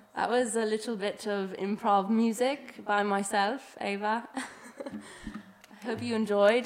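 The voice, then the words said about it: Put-on British accent. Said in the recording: “I'm still talking in British accent.”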